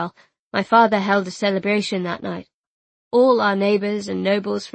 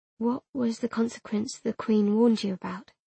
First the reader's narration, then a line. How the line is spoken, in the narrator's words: I prompted softly